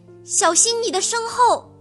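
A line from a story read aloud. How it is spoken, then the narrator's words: Tense loud shout. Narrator (Chinese): 黑猫警长紧张地大叫一声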